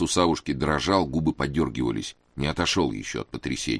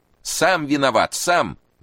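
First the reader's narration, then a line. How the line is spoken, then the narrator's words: Shout. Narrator (Russian): закричал Кузьма Кузьмич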